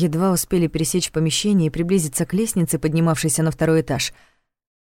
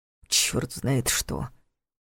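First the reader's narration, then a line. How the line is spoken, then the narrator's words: Grumbling. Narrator (Russian): снова проворчал Соучек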